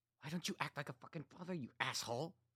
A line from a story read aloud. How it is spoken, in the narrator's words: Katie said under her breath